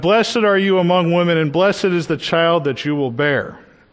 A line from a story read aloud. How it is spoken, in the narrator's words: in a loud voice, she shouted